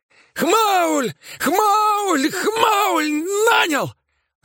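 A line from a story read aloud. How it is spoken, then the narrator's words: Yelling in pain. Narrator (Russian): заорал он, корчась от боли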